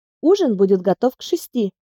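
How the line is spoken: Cheerful answer. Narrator (Russian): бодро ответила

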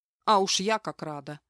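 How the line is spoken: Grumbling. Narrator (Russian): проворчала я

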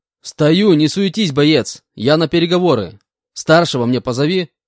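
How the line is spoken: Shouted. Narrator (Russian): выкрикнул

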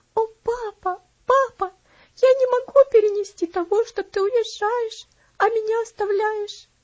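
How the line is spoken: Sobbing. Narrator (Russian): всхлипывала она

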